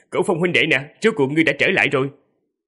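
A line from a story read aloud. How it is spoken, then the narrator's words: Loud laughing call from afar. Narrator (Vietnamese): Hạ Nhất Minh từ rất xa đã cười lớn rồi nói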